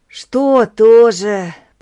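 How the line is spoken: Moaning. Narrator (Russian): простонал я

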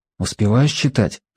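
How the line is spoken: Whisper. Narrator (Russian): шепнул я

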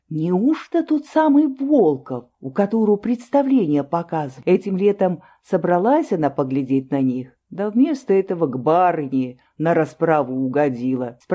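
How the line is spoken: Plain. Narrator (Russian): спросила у деда

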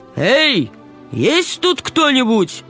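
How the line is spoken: Determined shout. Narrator (Russian): Она собралась с духом, решительно крикнула

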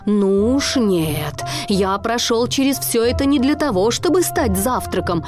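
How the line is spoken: Angry shout. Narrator (Russian): сердито закричал Марлин

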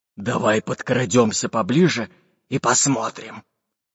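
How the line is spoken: Hoarse captain's voice. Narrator (Russian): Хрипло ответил рыжебородый капитан Буль-Буль

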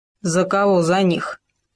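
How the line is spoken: Wolf's growl. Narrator (Russian): прорычал волк

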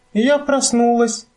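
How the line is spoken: Joyful, expectant exclamation. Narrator (Russian): полное радостного ожидания воскликнула Фрекенснорк

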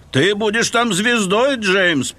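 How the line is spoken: Low booming drone. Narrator (Russian): прогудел Томас

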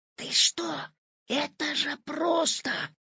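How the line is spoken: Whispering. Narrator (Russian): зашептал Петя

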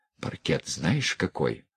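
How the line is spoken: Quick whisper. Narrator (Russian): успел шепнуть Санька

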